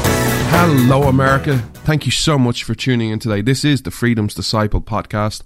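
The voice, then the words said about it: Irish accent. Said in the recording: “This Irishman stands with America ... you come for the accent”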